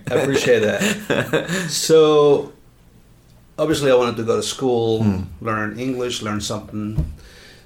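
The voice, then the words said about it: Heavy Spanish accent in English. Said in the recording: “I have a heavy accent because I was older when I came here.”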